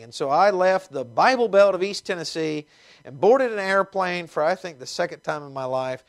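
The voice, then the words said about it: Slight Southern American twang. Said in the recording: “as you can tell with my accent, it's much more fancy than it used to be, but I have a bit of a twang”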